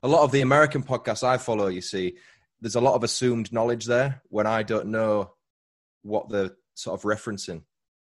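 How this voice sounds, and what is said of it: Speaker's own non-American accent. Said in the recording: “that's my accent there... I love your accent”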